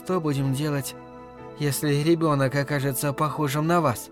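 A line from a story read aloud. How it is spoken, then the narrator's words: Sudden, surprised whisper, female. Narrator (Russian): неожиданно, сама удивляясь своим словам, прошептала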